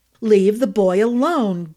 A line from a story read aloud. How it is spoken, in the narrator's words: Gus shouted